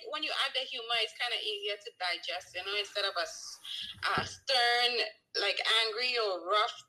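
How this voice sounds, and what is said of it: Trinidadian Caribbean accent. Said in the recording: “a nice little cadence to your voice ... I have a sexy accent ... I'm originally from Trinidad and Tobago ... Trinidad have actually one of the sexiest accents in the world”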